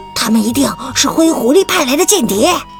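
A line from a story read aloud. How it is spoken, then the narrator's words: Low voice. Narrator (Chinese): 长腿兔低声说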